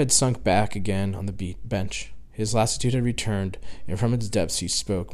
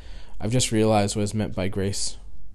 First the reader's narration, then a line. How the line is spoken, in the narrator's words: said sadly